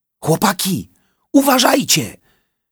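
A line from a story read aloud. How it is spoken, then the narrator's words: Woodpecker shouting. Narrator (Polish): krzyknął dzięcioł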